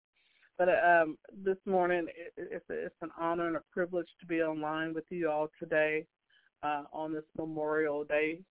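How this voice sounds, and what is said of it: Sick-sounding voice. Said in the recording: “Please forgive my voice. I have a dealing with a cold right now”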